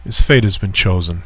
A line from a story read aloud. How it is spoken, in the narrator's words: he said